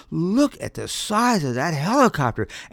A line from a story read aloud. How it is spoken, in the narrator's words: exclaimed